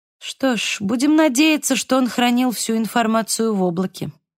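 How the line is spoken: Calm. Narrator (Russian): спокойно произнесла

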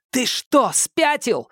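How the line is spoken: Shout. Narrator (Russian): закричал Томас

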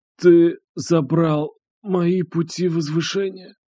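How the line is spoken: Quiet reply. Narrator (Russian): Андрей тихо ответил

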